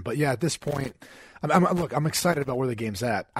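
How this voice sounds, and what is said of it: Hoarse, partly lost voice. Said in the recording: “So jacked that I lost my voice. ... a little bit under the weather”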